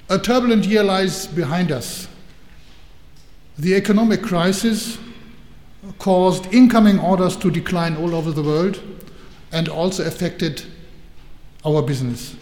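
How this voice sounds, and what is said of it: German accent in English. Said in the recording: “you have no doubt that I'm a German ... you heard from my accent. But I try hard not to spoil my pronunciation and to become too English. I try hard to stay German.”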